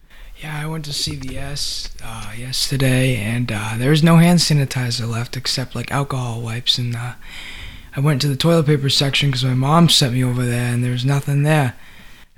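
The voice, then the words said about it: Speaks with a noticeable accent. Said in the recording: “Where does this accent come from?”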